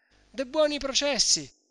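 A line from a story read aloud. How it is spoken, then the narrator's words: Mayor shouting. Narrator (Italian): gridava il podestà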